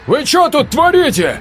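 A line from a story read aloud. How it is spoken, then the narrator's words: Officer shouting. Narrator (Russian): выкрикнул второй офицер с прибывшей колонны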